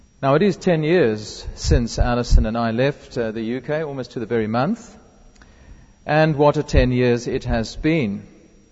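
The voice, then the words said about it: South African accent. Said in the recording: “We are very definitely South Africans, as you will tell by the accent”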